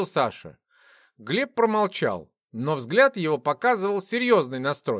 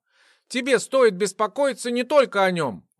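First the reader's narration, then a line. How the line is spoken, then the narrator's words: Exclamation. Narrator (Russian): воскликнула Вика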